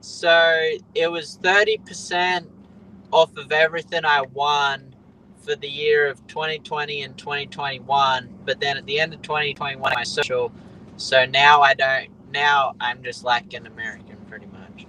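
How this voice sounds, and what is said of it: Noticeable non-American accent. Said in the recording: “the accent's a dead giveaway that you're not ... but have the accent”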